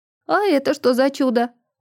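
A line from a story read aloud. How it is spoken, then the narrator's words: Surprised exclamation. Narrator (Russian): удивленно воскликнула сестра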